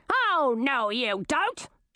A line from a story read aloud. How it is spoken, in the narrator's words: shouted Queen Olivine